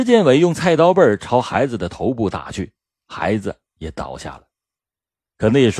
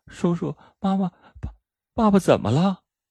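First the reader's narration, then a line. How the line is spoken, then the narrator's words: Frightened crying child. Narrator (Chinese): 孩子惊吓的哭着说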